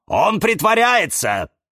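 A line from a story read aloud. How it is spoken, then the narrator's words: Shouted reply. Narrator (Russian): закричал ей в ответ Кирилл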